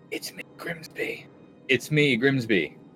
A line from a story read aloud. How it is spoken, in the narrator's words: close to Raylan and whisper